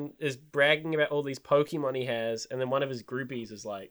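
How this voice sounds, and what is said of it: Usual voice. Nothing is said of it.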